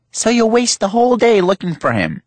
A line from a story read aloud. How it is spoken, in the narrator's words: my mother snapped